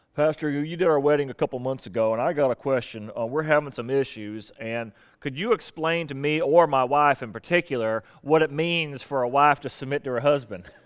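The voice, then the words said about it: Put-on Southern US accent. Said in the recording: “I use a southern accent”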